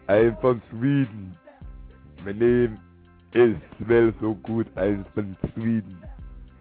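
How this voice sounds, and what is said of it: Arnold-style Swedish accent impression. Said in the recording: “doing my Black Arnold voice, which sounds Sweden”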